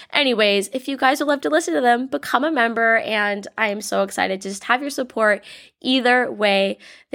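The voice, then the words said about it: Slightly congested voice from cold. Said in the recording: “I have a little bit of a cold. I'm getting over it, but I think my voice sounds pretty fair.”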